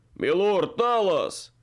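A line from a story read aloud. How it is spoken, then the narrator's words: Indignant howl. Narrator (Russian): Возмущенно взвыл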